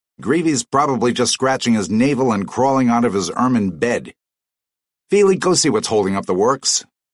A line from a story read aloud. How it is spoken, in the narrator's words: snapped his father